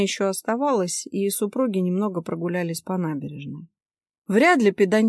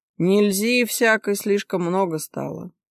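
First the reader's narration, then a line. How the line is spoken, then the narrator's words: Muttering. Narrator (Russian): пробурчал Виктор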